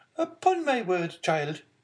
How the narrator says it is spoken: exclaimed the angry Marquise

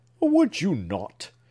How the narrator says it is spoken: exclaimed Clifford with singular energy

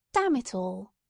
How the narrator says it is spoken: exclaimed

